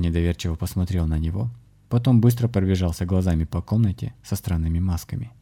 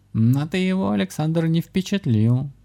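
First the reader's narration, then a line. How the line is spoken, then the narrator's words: Telepathic guffaw, cat. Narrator (Russian): захохотал в голове у шамана кот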